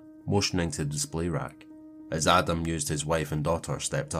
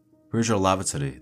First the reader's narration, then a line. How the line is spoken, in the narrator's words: asked, her tone urgent